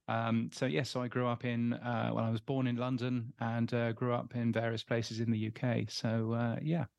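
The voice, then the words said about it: English accent. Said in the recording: “you can tell from my English accent that I'm from the UK. I'm not from down here in Australia.”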